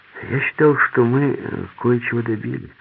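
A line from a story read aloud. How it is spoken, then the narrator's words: Thoughtful. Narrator (Russian): задумчиво сказал Греко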